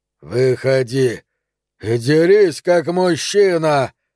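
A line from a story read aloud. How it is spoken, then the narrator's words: Roaring, spitting. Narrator (Russian): взревел куколка, разбрызгивая слюну и кровь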